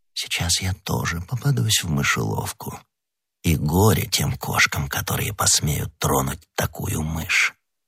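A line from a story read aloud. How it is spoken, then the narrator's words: Whispered. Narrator (Russian): прошептав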